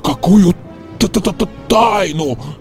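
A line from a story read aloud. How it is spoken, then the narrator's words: Stuttering question. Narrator (Russian): спросил, заикаясь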